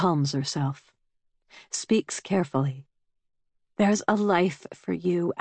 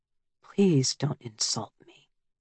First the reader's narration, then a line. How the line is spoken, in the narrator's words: he says quietly